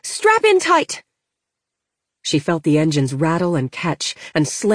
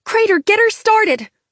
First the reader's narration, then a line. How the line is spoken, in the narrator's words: Lena barked